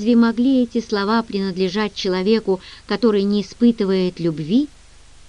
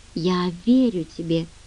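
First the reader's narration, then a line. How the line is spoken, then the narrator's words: Quiet. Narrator (Russian): тихо сказала Генри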